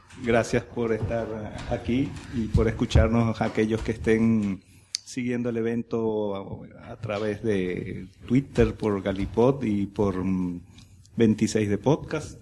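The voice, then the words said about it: Galician Spanish accent. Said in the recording (Spanish): “con mi acento gallego característico”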